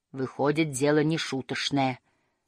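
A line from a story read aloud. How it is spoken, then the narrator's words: Muttering. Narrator (Russian): пробормотала малышка Мю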